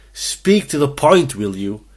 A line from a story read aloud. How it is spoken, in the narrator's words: barked